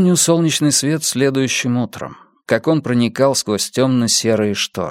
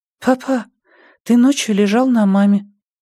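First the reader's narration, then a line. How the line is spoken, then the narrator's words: Thin clear child's voice. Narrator (Russian): сообщил своим тонким чистым голоском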